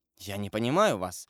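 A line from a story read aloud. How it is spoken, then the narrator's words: Mumbling. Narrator (Russian): пробормотал Люсьен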